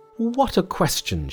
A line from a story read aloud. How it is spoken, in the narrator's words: she exclaimed